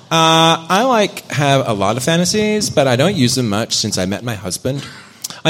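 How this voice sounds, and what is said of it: Put-on Valley girl accent. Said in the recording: “20-year-old Queensland girl voice ... I've got like a Valley girl accent ... I'll do my Valley girl accent, which is not girl. Queensland. It's Queensland Valley.”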